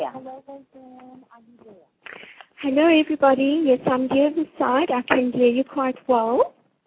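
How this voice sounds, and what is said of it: South African English accent. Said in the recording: “She's a South African lady. She's got a delightful accent”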